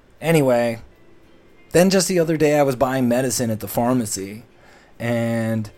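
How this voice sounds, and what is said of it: Usual voice. Nothing is said of it.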